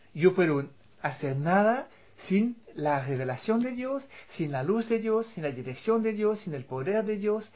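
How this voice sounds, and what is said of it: Speaks Spanish with an unusual accent. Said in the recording (Spanish): “mi acento raro”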